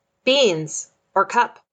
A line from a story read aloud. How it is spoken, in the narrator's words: a rather intense appearing person shouting at me